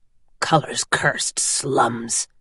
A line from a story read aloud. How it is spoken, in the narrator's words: he muttered